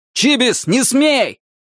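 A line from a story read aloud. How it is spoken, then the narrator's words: Adult shouting. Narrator (Russian): кричал кто-то из взрослых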